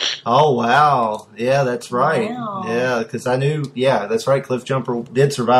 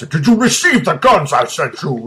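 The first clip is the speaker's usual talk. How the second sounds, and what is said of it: Imitates cartoon villain's voice. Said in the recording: “great Destro impression ... he sounds like Jean-Luc Picard with a cold”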